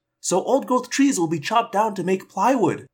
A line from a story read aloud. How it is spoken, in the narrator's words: I cried